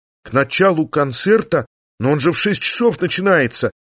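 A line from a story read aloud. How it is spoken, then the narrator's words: Desperate exclamation. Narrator (Russian): В отчаянии воскликнул я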